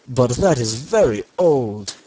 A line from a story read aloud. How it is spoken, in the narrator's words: exclaimed his father